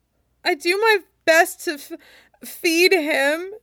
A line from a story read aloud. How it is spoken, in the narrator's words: Luo Jiahui sobs